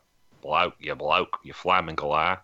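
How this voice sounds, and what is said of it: Put-on Australian accent. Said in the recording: “an Australian accent”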